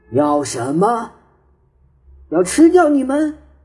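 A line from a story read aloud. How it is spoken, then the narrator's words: Huge thunderous roar. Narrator (Chinese): 有个很大很大的声音像打雷似的叫起来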